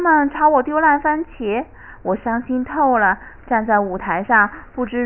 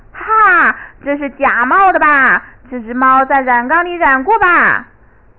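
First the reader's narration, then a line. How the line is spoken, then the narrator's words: Laughing, shouting crowd. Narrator (Chinese): 观众们却爆发出一阵大笑，他们大喊大叫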